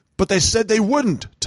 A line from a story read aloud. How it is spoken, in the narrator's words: Thomas had shouted